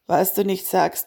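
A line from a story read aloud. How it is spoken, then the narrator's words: Said with a sigh. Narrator (German): meinte Marco und seufzte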